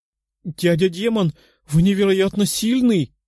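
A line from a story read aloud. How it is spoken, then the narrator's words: Little girl exclaiming. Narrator (Russian): воскликнула девочка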